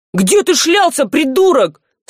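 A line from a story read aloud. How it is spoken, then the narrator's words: Thief yelling angrily. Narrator (Russian): заорал на него вор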